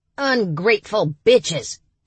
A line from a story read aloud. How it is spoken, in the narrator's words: he barked when he could speak again